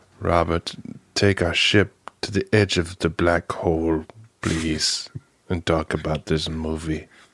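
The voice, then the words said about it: Ominous, scary voice. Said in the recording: “say that with your like ominous sound. Do that with your like kind of scary voice.”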